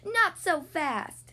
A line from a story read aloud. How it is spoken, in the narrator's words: Bumblebee yelled